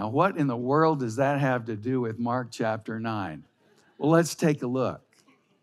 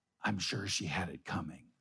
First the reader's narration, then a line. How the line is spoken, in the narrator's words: Nonplussed, the ambassador whispered to Franklin